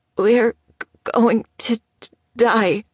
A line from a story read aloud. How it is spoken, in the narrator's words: he whimpered